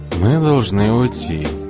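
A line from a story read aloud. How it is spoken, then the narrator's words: Calm old man. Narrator (Russian): спокойно сказал старик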